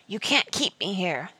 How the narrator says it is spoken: the walker hissed

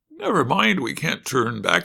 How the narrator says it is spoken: said Dorothy

